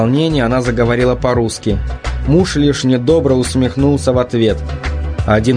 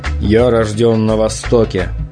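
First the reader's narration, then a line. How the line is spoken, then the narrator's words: Sad husband speaking. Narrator (Russian): грустно произнес муж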